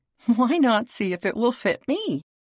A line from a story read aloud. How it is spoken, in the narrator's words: burst out laughing